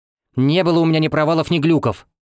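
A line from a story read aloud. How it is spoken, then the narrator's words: Angry snap. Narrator (Russian): Сердито огрызнулась Эва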